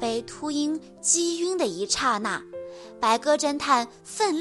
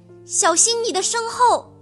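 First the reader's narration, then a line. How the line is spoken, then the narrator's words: Tense loud cry. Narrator (Chinese): 黑猫警长紧张地大叫一声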